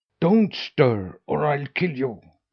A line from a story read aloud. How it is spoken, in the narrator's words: snarled the dog